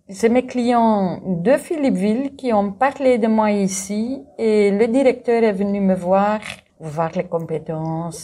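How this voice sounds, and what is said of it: Slight Dutch-speaking accent. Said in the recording (French): “vous avez un petit accent néerlandophone”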